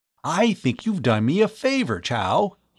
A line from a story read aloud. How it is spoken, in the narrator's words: exclaimed